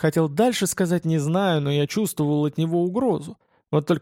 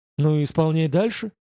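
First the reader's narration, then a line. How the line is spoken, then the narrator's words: Calm reply. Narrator (Russian): спокойно ответил я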